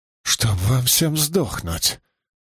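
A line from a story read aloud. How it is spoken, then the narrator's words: Weak mutter through teeth. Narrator (Russian): процедил Риналь без особой, впрочем, силы в голосе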